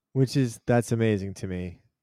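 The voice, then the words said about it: Slightly sarcastic tone. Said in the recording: “I'm not being sarcastic. Well, yeah, I am a little sarcastic.”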